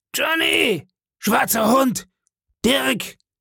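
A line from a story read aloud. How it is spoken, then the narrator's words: Shouting. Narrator (German): schrie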